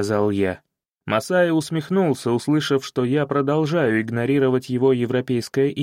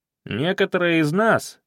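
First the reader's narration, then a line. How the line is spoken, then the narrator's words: Snide interjection. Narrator (Russian): вмешался Самбека ехидно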